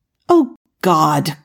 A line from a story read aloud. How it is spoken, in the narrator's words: Cordy exclaimed